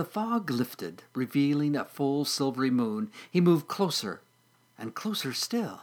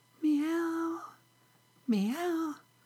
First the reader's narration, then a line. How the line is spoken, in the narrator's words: softly mewed